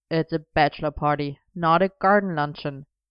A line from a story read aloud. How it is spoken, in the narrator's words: Arthur pointed out with a snort